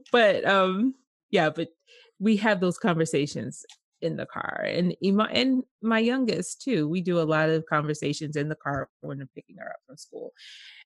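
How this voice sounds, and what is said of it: Regional accent. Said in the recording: “She has an accent, y'all. It's just funny.”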